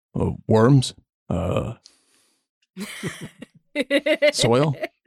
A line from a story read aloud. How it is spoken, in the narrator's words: Second one, in a much deeper voice